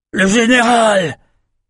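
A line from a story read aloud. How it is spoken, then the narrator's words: Soldier shouting. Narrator (French): cria un des soldats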